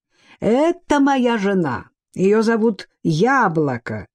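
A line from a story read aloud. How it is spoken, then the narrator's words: Cheerful announcement. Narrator (Russian): весело объявил Сюй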